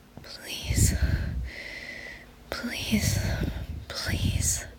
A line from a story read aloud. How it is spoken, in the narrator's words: they moaned